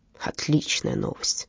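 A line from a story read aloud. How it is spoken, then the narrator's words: Gruff mutter. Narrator (Russian): буркнул Фрёлик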